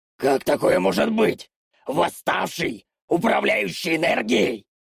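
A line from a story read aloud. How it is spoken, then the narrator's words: Shrieking. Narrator (Russian): Завопило это чудо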